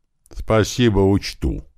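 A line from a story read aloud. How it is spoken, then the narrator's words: Grumble. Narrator (Russian): пробурчал Слива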